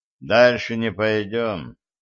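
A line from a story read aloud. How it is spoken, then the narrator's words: Glum announcement. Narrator (Russian): уныло сообщил я своим бойцам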